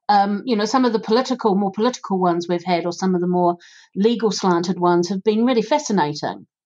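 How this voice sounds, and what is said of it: New Zealand accent. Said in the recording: “my accent, being from New Zealand”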